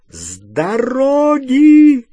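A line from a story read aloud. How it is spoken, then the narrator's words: Shout. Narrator (Russian): крикнула миссис Уизли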